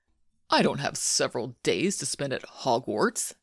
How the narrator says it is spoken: Malfoy sneered

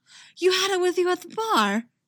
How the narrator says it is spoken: Eggsy gasps

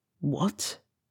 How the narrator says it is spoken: he whispered

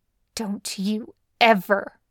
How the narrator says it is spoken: she hisses

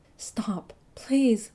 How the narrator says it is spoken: Duck remembered him moaning

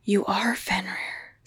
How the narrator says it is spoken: Stiles whispered

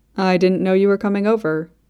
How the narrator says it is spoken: Eddie says

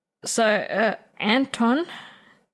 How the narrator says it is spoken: Nathan stammers

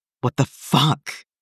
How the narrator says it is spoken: Jason gasped out

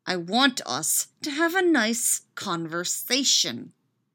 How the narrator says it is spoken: he says through gritted teeth

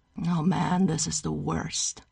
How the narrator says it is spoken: Kevin sighs

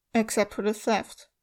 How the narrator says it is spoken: Geralt added in an even voice

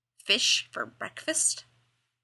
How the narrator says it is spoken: Dean muttered

